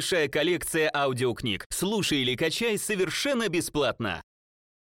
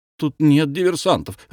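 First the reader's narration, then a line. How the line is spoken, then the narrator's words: Timid reply. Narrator (Russian): робко ответил Фокусов Веселовский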